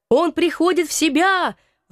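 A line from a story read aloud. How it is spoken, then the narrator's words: Sudden shout from crowd. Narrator (Russian): вдруг закричал кто-то из толпы, окруживший Брандокрыса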